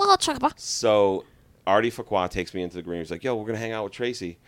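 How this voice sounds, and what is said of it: Usual voice. Nothing is said of it.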